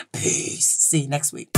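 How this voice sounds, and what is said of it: Very deep voice. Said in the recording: “in my deepest pan voice”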